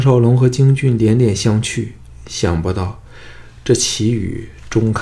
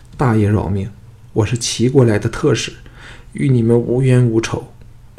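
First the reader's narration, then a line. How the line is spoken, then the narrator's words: Terrified trembling plea. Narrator (Chinese): 那个人早吓得面无人色，颤声求饶道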